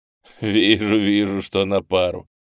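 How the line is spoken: Laughing. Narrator (Russian): рассмеялся

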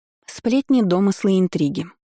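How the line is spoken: Gloomy droning. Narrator (Russian): уныло бубнила Келлира

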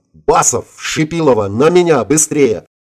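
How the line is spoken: Yelling. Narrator (Russian): заорал я

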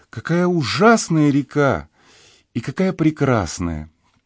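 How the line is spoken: Heavy sigh. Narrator (Russian): тяжело вздохнула

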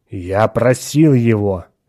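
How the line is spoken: Angry. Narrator (Russian): сердито продолжал Атон

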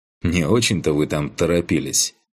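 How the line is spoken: Wry snort. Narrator (Russian): хмыкнул я

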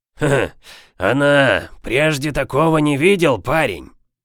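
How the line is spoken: Hoarse croak. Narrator (Russian): каркнул хрипатый Боб

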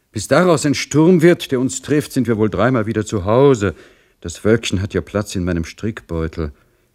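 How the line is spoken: Sighing, breathless woman. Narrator (German): sprach Madame Singwald, der dies raschere Tempo Seufzer entlockte

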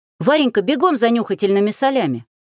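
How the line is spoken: Shout. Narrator (Russian): крикнул он

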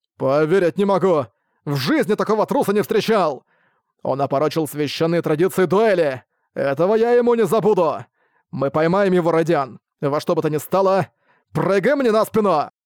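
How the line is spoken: Shout. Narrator (Russian): Прокричал Брэд

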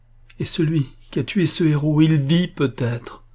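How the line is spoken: Exclaiming. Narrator (French): s'écria-t-elle

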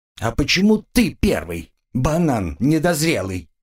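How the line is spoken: Indignant. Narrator (Russian): возмущенно мессир

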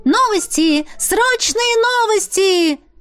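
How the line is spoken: Boy shouting on street. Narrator (Russian): кричал мальчик на углу Хайд-Роуд

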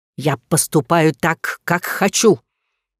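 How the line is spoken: Angry dragon's bark. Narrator (Russian): Зло рявкнув, дракон

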